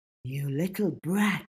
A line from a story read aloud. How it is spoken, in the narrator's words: Avery hissed